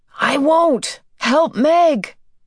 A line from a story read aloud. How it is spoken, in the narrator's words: Calvin yelled back